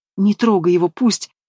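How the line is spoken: Sobbing. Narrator (Russian): всхлипывает Амелия

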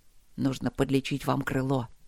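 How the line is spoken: Quiet. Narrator (Russian): тихо проговорил лорд Макс

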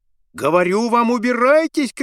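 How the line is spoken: Shouting woman. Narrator (Russian): кричала она

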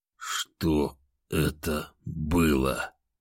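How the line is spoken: Barely audible, tearful strain. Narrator (Russian): Еле слышно выдавил он

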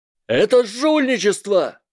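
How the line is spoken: Yelled. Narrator (Russian): завопил Блейз Забини

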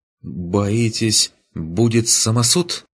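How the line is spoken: Uncertain question. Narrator (Russian): Неуверенно уточнил тот

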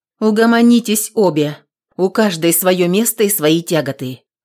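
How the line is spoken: Stern. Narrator (Russian): строго сказала Аксинья

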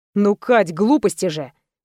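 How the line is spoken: Snort. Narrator (Russian): хмыкнул Роман

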